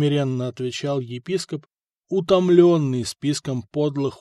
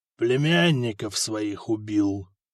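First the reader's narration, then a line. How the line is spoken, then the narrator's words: Quiet, king. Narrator (Russian): негромко проговорил король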